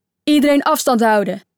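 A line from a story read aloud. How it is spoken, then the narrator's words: Calling out. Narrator (Dutch): riep Daniel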